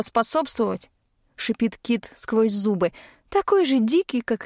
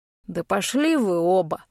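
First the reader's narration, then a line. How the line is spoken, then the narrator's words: Irritated spitting snarl. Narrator (Russian): выплевывает волк раздраженно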